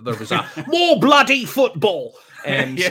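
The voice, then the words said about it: Exaggerated English accent impression. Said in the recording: “That was a very disrespectful English accent there ... It was a rubbish David Mitchell impression.”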